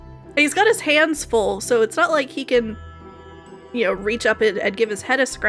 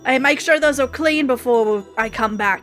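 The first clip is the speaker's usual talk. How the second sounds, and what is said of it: Put-on accent. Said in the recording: “I don't know why that accent suddenly came out.”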